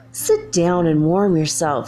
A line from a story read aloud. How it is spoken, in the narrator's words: said he